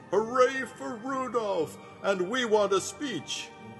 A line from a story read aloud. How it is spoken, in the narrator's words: The crowd first applauded, then started to screech